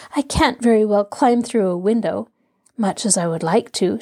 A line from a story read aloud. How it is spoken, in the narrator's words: she laughed